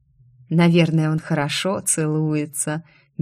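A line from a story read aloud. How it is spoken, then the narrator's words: Dreamy sigh. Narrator (Russian): мечтательно вздохнула она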